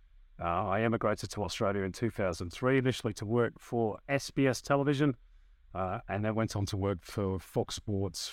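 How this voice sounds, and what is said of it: Northwest English accent. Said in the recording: “as you can tell by my accent, I started in the UK. That's where I'm from. I'm from the northwest of England.”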